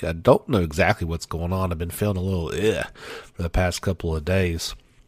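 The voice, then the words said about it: Raspy, hoarse voice. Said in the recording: “my throat is a bit raspy this week”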